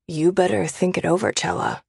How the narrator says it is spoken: Smith says in a hushed whisper

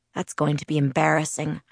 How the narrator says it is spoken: I muttered to myself

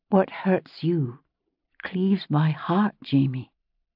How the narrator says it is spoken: I said quietly

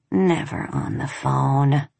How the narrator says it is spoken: in a bored voice, she said

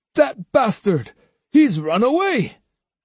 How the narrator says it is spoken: exclaimed Denshiro

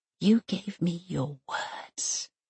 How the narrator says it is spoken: she whispers

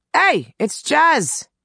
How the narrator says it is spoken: Billy called out

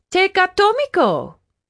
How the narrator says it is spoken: Vampi cried

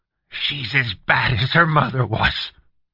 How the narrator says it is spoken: suddenly said fiercely, in a tone his son had never heard him use before

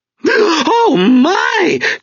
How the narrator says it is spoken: cried the large lady

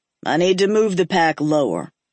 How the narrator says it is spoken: he said gruffly

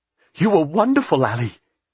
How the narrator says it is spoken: he said excitedly

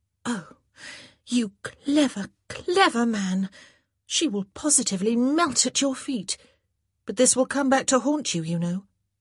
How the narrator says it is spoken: in surprise, a short little gasp of air passing through her lips before she said

